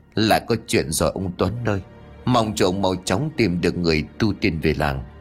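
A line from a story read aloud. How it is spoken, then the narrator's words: Tense elderly muttering. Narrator (Vietnamese): Cụ Mão khuôn mặt càng lúc càng căng thẳng, cụ lẩm bẩm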